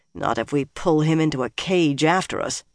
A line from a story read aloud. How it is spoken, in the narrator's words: Nynaeve muttered